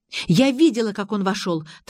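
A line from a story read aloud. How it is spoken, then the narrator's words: Hurried. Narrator (Russian): торопливо начала я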